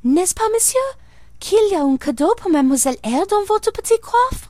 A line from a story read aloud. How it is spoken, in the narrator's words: Adèle, thinking the moment propitious for making a request in my favour, cried out